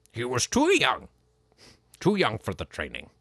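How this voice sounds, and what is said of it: Poor imitation of a puppet character voice. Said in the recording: “That's my terrible... my Frank Oz accent”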